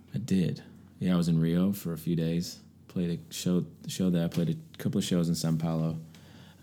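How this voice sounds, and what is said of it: Deep voice, fast accented speech. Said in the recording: “my accent and the speed that I talk, and my voice is really deep. People can't even understand me”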